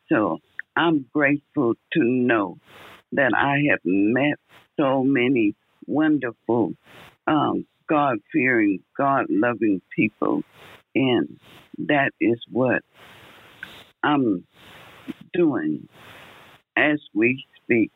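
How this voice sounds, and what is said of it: Tired-sounding voice. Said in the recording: “my voice is a little tired this morning”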